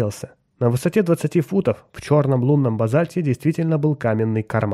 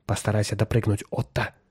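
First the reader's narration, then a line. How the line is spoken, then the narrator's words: Quiet command. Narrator (Russian): тихо скомандовал он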